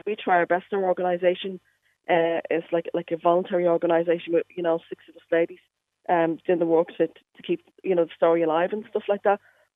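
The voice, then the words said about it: Dublin Irish accent. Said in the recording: “that doesn't sound like a Derry accent ... I moved to Derry from Dublin ... I never lost my accent”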